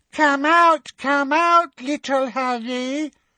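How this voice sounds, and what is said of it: Mocking baby voice. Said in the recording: “in her mock baby voice”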